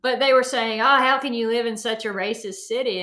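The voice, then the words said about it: Southern American accent. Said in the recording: “they were making fun of my accent”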